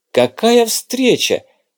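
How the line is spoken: Cheerful, smiling. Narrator (Russian): радостно улыбаясь

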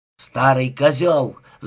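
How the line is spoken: Very loud scream. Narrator (Russian): закричала она так громко, что ее голос перекрыл гром оркестра

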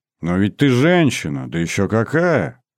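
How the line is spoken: Ingratiating, insinuating tone. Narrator (Russian): вкрадчиво заговорил Ершов

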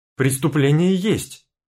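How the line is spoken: Angry retort. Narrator (Russian): зло бросило в лицо старушке

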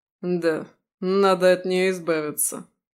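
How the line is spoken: Muffled smirking. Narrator (Russian): глухо усмехается

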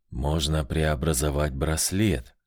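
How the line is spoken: Whisper. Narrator (Russian): шепнул элементаль зеленого цвета

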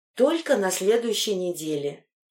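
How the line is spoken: Heavy-sighing reply. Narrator (Russian): тяжело вздохнув, ответила Анна

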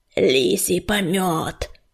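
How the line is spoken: Hoarse. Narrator (Russian): хрипел частокол

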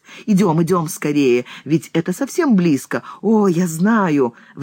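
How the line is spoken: Excited repetition. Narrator (Russian): взволнованно повторяет он

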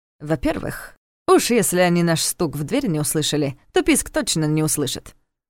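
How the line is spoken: Snorting. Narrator (Russian): хмыкнул Ярослав

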